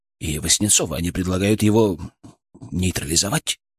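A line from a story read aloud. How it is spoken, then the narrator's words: Trailing into whisper. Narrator (Russian): Последнее слово произнес почти шепотом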